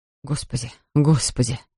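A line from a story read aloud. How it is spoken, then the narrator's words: Mumbling. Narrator (Russian): Бормотал он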